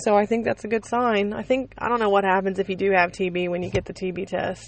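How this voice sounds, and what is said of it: Scratchy voice. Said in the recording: “my voice is scratchy”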